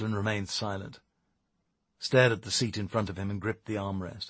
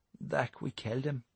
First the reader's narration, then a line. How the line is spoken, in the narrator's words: said Matty quietly